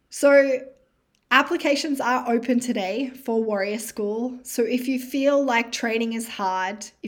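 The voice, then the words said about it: Tired, worn-out fading voice. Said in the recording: “I feel like my voice is on low battery. ... It's going to run out.”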